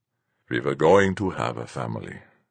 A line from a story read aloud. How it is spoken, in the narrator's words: Fuchs said, his voice low